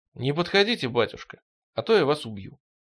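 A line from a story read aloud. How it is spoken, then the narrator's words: Calm. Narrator (Russian): сказал Стремглав спокойно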